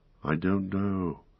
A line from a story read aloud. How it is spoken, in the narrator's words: said Frodo in a dreamlike voice